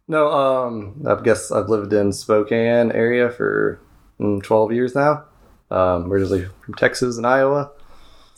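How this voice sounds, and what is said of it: Texas drawl. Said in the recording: “So that's where the drawl comes from. ... Are we calling it a drawl? ... Texas, I think.”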